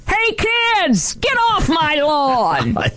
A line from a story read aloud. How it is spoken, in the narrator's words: keep yelling